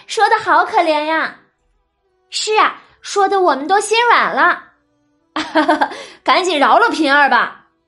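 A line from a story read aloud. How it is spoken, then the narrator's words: Crowd laughingly coaxing. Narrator (Chinese): 众人呢，只是见黛玉说的可怜，都纷纷笑着劝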